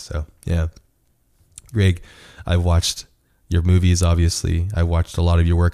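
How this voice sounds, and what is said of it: Hoarse voice. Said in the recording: “I'm getting over a cold ... I apologize for my hoarse voice”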